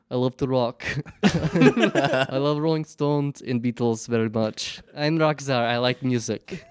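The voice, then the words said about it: Put-on Russian accent. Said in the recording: “I speak in a Russian accent all the time”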